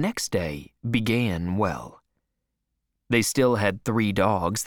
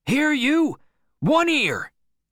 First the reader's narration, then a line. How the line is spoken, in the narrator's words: Henry shouted